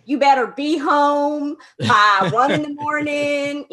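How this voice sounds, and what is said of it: Put-on Southern American accent. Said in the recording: “Maybe I'll also give them a Southern accent”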